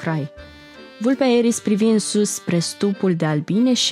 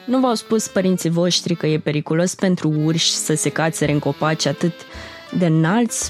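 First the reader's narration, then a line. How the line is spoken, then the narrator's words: Plain fox voice. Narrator (Romanian): spuse vulpea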